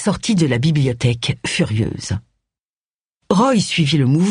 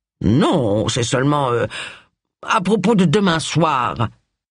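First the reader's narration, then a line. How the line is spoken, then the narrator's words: Intimidated stammer. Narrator (French): balbutia Charles, incapable de soutenir son regard assassin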